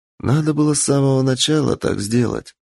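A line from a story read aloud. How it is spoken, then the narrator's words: Sighing. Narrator (Russian): вздохнула она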